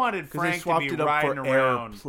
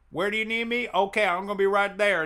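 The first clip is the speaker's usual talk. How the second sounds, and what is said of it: Put-on Louisiana accent. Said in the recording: “was that your best Louisiana accent?”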